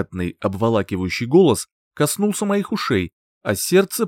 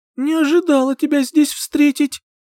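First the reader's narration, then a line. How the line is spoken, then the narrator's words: Squeaky unnatural voice. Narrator (Russian): пропищала не своим голосом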